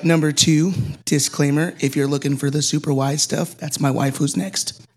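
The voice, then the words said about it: Hoarse, strained voice. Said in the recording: “I lost my voice at the beginning of the week”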